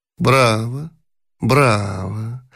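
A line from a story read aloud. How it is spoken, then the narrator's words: Low voice. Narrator (Russian): вполголоса сказала Замойская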